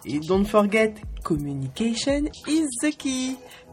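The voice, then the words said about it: Showy put-on English accent. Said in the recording (French): “C'est fou comme je me la pète avec mon accent anglais.”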